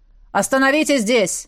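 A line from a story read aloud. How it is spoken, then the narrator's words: Loud bark. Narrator (Russian): гаркнул герцог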